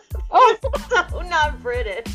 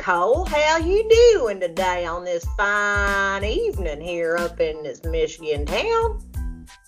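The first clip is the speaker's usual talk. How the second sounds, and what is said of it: Weird put-on cowboy accent. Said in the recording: “Is that British? ... is that your British accent? It's terrible ... that was some kind of weird cowboy accent”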